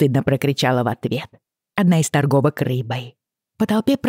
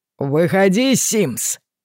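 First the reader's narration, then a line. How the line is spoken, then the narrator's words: Shouted, Southern Scottish accent. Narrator (Russian): заорал кто-то с акцентом из Южной Шотландии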